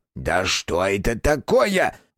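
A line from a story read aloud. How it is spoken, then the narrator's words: Roared. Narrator (Russian): взревел Корняш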